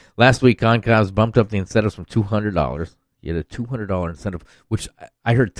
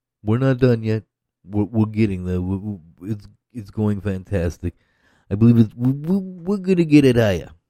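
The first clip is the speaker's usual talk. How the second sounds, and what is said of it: Bad imitation of another person's voice. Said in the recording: “That's Trump ... That's worse, Trump. Fucking impersonation ever.”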